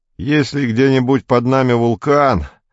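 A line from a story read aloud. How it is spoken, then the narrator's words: Groaning. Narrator (Russian): простонал Белов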